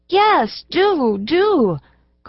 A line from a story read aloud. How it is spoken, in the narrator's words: cried several of the little ones